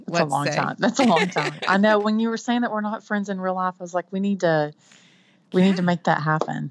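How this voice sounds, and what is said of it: Texan accent. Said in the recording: “you are hearing the authentic Texan accent.”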